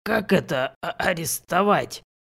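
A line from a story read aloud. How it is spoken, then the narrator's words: Hoarse with agitation. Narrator (Russian): переспросил он, наконец, хриплым от волнения голосом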